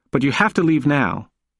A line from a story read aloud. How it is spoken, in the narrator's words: she said as firmly as she could muster